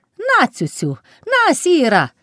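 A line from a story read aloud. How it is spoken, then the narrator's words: Shout. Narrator (Ukrainian): крикнула Палашка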